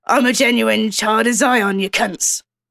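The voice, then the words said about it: Imitates a gruff TV character's accent. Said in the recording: “play Tank as Billy Butcher, basically. So same accent, same wardrobe”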